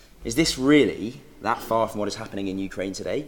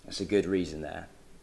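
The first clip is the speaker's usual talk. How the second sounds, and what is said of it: Sarcastic delivery. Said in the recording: “That was sarcasm.”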